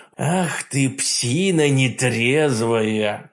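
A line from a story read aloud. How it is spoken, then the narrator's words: Hoarse growl. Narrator (Russian): хрипло прорычал я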